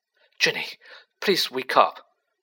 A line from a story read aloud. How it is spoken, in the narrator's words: Harry muttered desperately